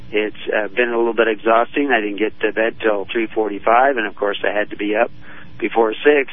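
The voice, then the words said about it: Strained, fading voice. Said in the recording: “my voice is starting to go”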